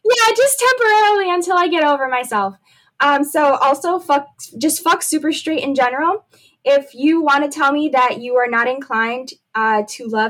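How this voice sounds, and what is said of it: Scratchy voice. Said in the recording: “my voice is hella scratchy. Your girl just went through a breakup. She's been crying.”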